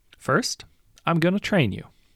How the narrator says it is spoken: she says

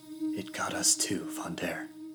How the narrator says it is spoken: Tosca breathed

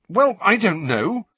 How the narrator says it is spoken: said Harry rather angrily

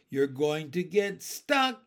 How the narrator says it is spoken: yelled

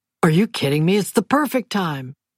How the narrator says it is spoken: Duke said, his voice exalted

